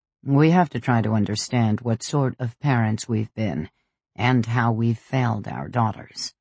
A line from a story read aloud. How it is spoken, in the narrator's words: Pietro said gravely